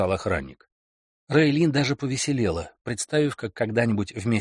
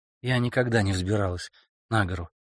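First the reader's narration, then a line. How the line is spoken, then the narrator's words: Quiet. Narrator (Russian): тихо сказала Рейлин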